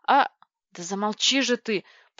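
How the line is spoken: Groaned. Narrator (Russian): простонал Владлен

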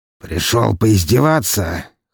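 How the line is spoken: Hoarse male. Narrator (Russian): хрипло произнес

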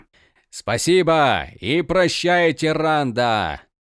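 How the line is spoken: Shouting. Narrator (Russian): кричал

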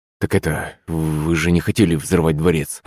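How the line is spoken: Confused mutter. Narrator (Russian): Растерянно пробормотал советник

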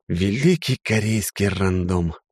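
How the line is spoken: Sigh. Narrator (Russian): вздохнул я

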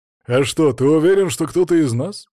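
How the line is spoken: Smirking. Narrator (Russian): хмыкнул

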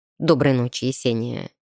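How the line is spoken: Quiet. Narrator (Russian): негромко молвил он

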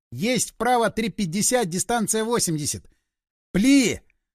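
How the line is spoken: Yelling. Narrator (Russian): Заорал

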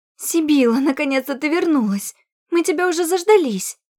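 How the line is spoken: Reproachful exclamation. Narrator (Russian): Укоризненно воскликнула пропажа

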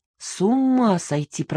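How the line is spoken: Muttering. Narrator (Russian): пробормотала я

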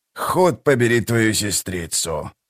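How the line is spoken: Mutter. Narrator (Russian): пробормотал он

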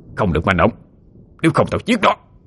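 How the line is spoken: Loud threatening shout. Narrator (Vietnamese): quát lớn

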